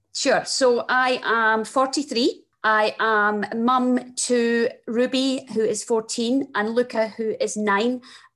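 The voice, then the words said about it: Strong Scottish accent. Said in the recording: “my very strong Scottish accent”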